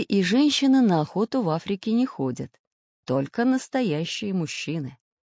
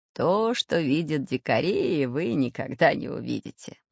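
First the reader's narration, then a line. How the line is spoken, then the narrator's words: Laughing. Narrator (Russian): засмеялся географ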